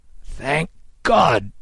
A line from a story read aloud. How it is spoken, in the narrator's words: Kid cried